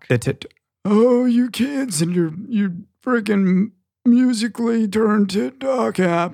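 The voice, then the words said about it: Old man voice. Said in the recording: “use your old man voice”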